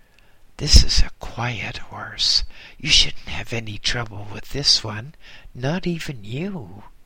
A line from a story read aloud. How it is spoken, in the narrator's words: The monk groom whispered